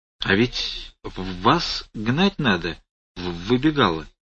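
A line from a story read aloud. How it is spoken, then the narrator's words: Unexpectedly calm voice. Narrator (Russian): неожиданно спокойным голосом произнес Федор Семенович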